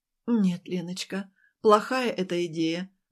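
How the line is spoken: Sorrowful sigh. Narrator (Russian): вздохнула горестно Ася

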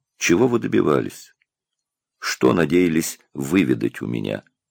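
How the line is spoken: Gentle, pitying question. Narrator (Russian): Жалость внутри него росла, и он мягко спросил

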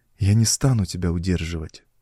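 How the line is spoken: Sigh. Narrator (Russian): вздохнула Мариамис

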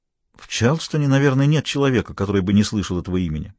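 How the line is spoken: Calm. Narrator (Russian): ответила спокойно

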